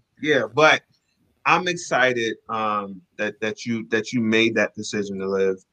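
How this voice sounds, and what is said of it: Voice choked with emotion. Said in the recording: “I'm getting a little choked up over here.”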